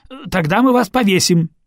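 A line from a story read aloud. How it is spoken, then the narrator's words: Barked. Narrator (Russian): рявкнул опомнившийся приотец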